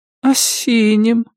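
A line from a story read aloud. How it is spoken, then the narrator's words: Sleepy. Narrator (Russian): сонно повторила она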